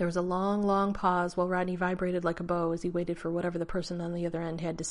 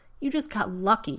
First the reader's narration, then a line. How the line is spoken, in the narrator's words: Rodney snarled